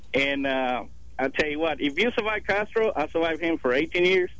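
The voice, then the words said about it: Cuban accent, Louisiana-like, Paul Prudhomme. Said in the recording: “his accent sounded like we screwed it up over in Louisiana ... It sounded a little like Paul Prudhomme. over there meets meets some baseball player from the Dominican”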